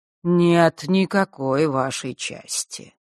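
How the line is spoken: Calm objection. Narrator (Russian): спокойно возразила Хронимар

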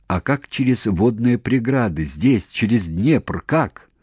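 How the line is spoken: Plain question. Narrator (Russian): снова спросил Серпилин

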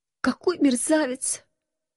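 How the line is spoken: Quiet sob. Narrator (Russian): тихо всхлипнула я

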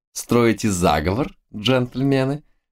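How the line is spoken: Ringing laughter. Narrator (Russian): Заливисто рассмеялась девица

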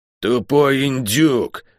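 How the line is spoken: Furious growl. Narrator (Russian): яростно прорычала она

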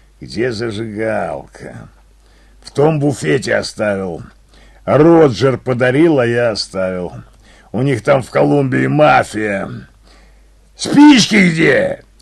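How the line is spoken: Barking snap. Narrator (Russian): Рявкнул он на меня

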